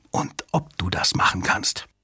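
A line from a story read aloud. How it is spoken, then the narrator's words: Whispered. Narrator (German): flüsterte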